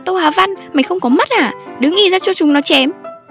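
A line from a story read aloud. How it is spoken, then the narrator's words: Loud angry yelling. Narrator (Vietnamese): tiếng anh em của anh quát tháo âm cả hàng nét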